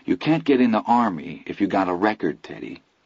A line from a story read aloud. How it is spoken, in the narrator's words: Chris said softly